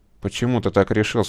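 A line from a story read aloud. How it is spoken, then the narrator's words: Calm question. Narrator (Russian): спокойно спросил Андрей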